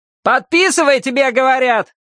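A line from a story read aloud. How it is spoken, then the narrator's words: Yelling, officer. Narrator (Russian): штабс-прапорщик не заорал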